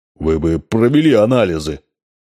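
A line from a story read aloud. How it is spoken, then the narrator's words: Muffled, mouth full of potatoes. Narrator (Russian): сказал Савульский глухо, будто набрал полон рот картошки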